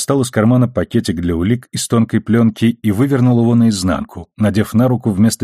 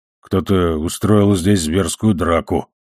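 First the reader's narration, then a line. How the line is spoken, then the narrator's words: Muttered. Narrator (Russian): пробормотал Амос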